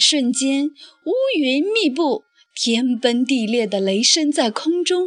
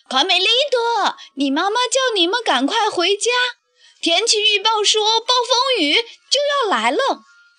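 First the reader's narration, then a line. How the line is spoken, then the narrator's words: Calling out. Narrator (Chinese): 贝里奥在石桥上呼喊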